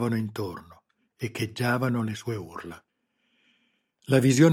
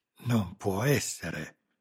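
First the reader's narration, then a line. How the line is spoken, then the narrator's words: Panted. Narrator (Italian): ansimò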